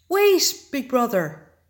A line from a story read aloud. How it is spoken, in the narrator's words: he cried